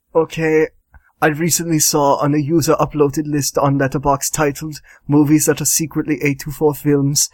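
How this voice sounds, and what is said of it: Werner Herzog impression. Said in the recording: “read it in a Werner Herzog voice”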